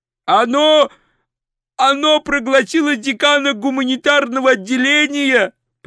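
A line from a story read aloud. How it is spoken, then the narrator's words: Shouted. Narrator (Russian): прокричал он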